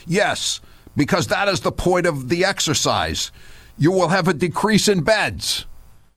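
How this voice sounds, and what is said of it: Cuomo impression, faux New York accent. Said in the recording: “Mr. Cuomo said at the time, I'm trying to get his faux New York accent.”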